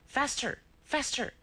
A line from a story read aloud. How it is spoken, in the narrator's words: he cried to the driver